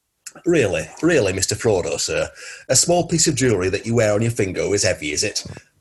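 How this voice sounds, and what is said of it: Brusque northern English accent. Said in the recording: “I'm going to treat him as someone brusque and northern”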